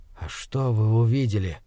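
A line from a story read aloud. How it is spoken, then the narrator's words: Barely audible breath. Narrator (Russian): еле слышно выдохнул я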